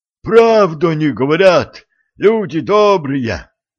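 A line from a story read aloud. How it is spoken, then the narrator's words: Wheezy fisherman. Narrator (Russian): просипел рыбак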